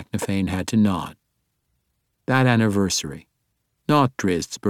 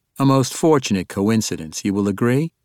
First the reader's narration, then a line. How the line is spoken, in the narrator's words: Deneen asked